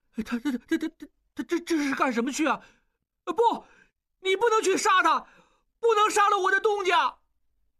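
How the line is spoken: Tense, breathless question. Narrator (Chinese): 不哭了，重新紧张起来，警觉地 一边喘气，一边问

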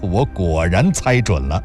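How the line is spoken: Laughing. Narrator (Chinese): 林楠笑道

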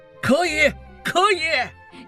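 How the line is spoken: Group shouting in unison. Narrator (Chinese): 一伙人齐声喊

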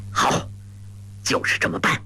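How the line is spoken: Through gritted teeth. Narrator (Chinese): 当下咬牙道

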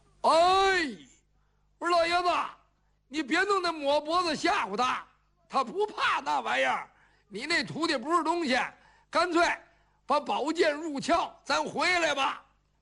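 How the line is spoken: Shouting along. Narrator (Chinese): 程咬金也跟着喊上了

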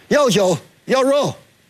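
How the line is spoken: Loud shout. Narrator (Chinese): 他……高声的喊叫

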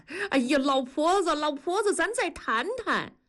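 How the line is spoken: Calling out from behind. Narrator (Chinese): 大庄跟在后面喊

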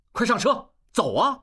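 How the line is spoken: Calling out. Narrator (Chinese): 应济喊一声

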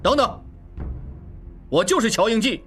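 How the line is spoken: Shouting loudly. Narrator (Chinese): 应季大叫着

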